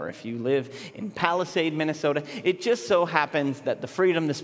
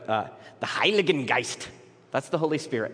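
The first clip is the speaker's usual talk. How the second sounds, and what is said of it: Bad, harsh put-on German accent. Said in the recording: “I do a very bad German accent and make it very harsh”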